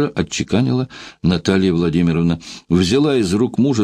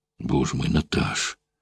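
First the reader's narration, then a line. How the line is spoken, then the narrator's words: Near moan. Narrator (Russian): почти простонал Игнатов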